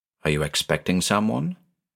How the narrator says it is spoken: Ellen asked, her voice barely above a whisper

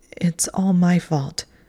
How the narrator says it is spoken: she said in a shaking voice

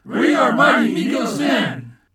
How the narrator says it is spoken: they too were shouting

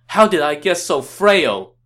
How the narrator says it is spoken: He cried out

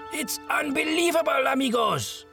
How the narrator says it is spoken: cried out in his broken voice

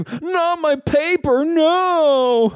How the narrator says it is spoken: You hear him scream

